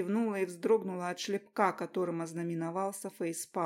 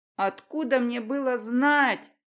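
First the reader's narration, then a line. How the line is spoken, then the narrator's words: Ashamed shout. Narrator (Russian): крикнула я, сгорая от стыда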